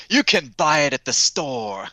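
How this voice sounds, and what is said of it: Poor imitation accent. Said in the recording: “my terrible imitation accent”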